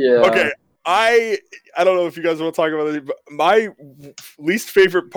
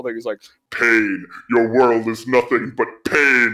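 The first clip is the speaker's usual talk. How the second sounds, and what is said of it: Deliberately bad Darth Vader impression. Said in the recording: “I'll try my best to do a really bad impression of them”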